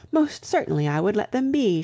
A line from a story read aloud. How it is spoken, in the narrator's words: she cried